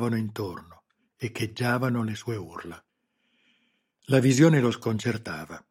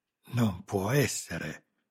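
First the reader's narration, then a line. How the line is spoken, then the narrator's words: Shocked gasp. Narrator (Italian): ansimò, assistendo allo spettacolo a occhi sbarrati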